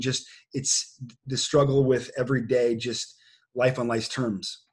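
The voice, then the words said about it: Choked-up, emotional voice. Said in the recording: “I'm getting choked up just listening”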